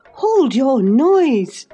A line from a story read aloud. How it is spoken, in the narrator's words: cried I hastily, enraged at her clamorous manner